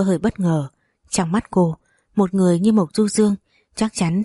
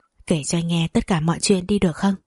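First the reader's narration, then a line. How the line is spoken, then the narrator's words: Soft, close whisper. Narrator (Vietnamese): Mộc Du Dương nói khẽ vào tai cô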